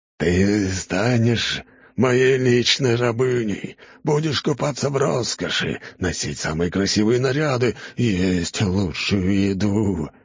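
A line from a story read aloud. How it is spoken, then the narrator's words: Passionate growl. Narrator (Russian): рычал ордынец, страстно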